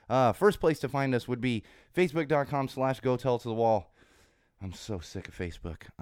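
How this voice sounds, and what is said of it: Congested, hoarse, partly lost voice. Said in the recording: “still recovering my voice. It's not fully back yet ... I'm getting over a cold. I'm still a little congested ... got the little sore throat and kind of losing my voice a little”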